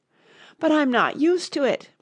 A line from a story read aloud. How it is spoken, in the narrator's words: pleaded poor Alice in a piteous tone